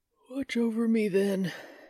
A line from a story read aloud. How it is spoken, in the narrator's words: he said with a yawn